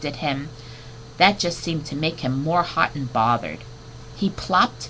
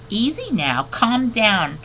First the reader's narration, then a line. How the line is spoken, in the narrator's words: squeaked soothingly